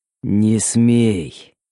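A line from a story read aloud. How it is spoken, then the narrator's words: Hoarse rumbling. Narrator (Russian): пророкотал хрипло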